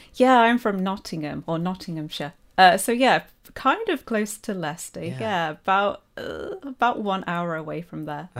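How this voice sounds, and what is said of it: English Midlands accent. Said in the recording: “I can tell from your accent that you're definitely Midlands”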